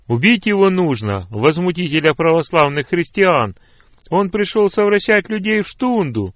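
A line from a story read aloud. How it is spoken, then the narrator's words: Crowd shouting. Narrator (Russian): кричали другие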